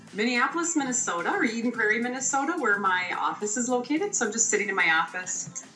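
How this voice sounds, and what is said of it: Minnesota accent. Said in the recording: “I can hear the accent for sure. It's great.”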